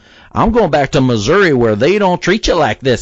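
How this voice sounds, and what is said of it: Put-on Missouri accent with swagger. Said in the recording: “that's her interpretation of what people from Missouri sound like ... she's got a swagger going on, her Missouri swagger”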